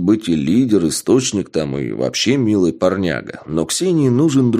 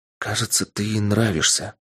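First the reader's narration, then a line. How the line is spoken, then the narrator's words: Whisper. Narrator (Russian): шепнула мне Полина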